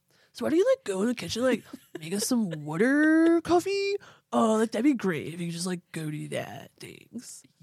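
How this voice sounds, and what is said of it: Douchey guy character voice. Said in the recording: “That's like the douchey guy. That's like our douchey guy accent.”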